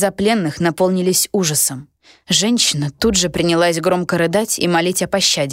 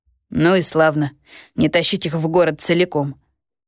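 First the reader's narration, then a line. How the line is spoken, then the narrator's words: Chuckle. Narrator (Russian): хохотнул Лука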